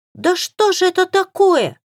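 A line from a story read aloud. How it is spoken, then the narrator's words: Shrill tearful cry. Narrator (Russian): Визгливо вскрикнула Лика, и лицо ее уже приняло плаксивое выражение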